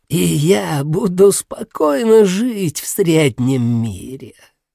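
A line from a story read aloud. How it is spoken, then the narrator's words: Old woman's dreamy sigh. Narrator (Russian): Старуха мечтательно вздохнула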